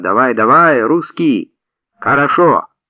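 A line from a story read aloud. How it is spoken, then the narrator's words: Young woman shouting. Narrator (Russian): Маленькая проститутка крикнула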